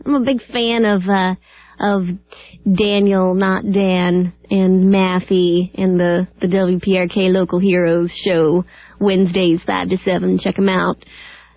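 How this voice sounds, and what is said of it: Poor imitation of another person's voice. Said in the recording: “That was my Hawkeye voice. ... That was a poor imitation. A cheap imitation, if you will. No. Did not do him justice whatsoever.”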